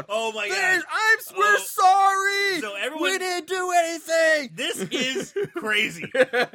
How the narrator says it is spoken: starts laughing and drops to her knees yelling out

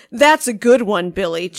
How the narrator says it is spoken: chuckled Dan

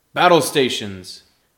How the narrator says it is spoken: Captain Helios shouts to the crew

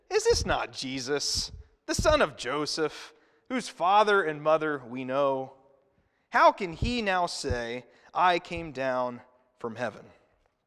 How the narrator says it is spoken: They grumbled

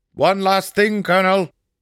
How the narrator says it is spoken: Stuck shouted

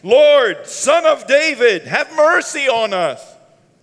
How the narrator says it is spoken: Two blind men they shouted

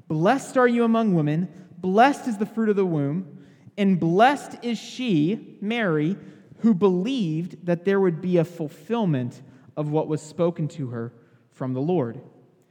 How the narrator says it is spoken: Elizabeth was filled with the Holy Spirit, and she exclaimed with a loud cry

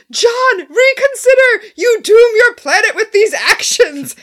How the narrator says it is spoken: Scorpius shouts

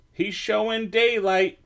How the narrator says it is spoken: Pete yelled

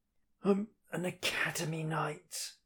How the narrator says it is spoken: the boy wheezes

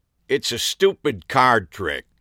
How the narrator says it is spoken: he grumbled

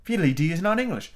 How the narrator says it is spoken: Alice replied gravely

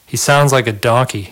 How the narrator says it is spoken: Sean said

